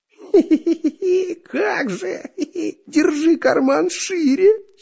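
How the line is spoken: Mocking giggle. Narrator (Russian): хихикнул шпион Дырка

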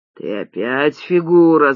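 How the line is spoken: Furious growl. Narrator (Russian): зарычал взбешенный Башка

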